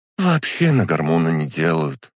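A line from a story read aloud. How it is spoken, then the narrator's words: Sigh. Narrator (Russian): вздохнула та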